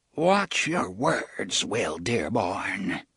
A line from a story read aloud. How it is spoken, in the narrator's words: he said in a low, hoarse voice